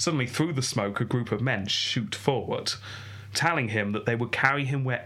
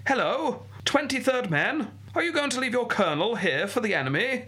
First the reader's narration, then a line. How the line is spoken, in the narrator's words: he called out